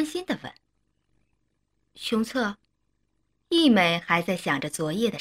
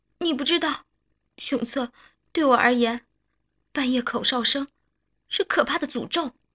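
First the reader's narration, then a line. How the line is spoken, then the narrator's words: Choked sobbing. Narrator (Chinese): 一美 哽咽道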